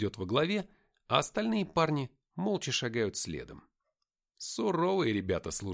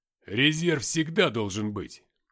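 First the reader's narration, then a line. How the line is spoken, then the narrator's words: Deep booming bass. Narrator (Russian): пробасил Артем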